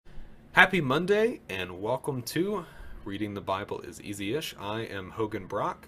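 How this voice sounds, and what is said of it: Slower than normal speech. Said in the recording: “I said that slower than normal”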